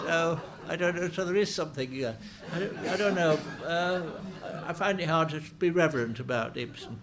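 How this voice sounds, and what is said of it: Yorkshire accent. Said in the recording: “how you've retained your accent ... keeping a Yorkshire accent”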